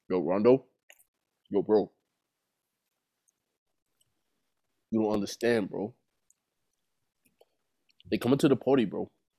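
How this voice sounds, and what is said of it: Impression of Ace. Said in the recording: “I can do Ace ... this is a goat impersonator”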